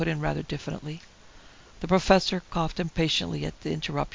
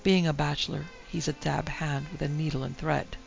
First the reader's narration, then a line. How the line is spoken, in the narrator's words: Tim Dent replied, then added more quietly